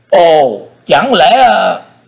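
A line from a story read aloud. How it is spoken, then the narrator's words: Startled cry. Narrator (Vietnamese): quái nhân mặt đỏ như chu sa, miệng kêu lên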